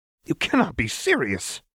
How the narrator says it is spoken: Fox scoffed

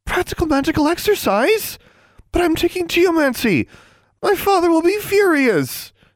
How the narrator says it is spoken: Anna wailed

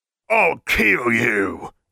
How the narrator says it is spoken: He spat

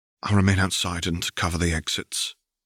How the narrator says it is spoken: Caitlin said quietly

